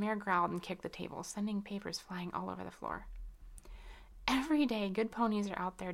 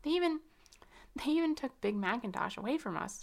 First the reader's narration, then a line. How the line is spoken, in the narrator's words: she said as she began sobbing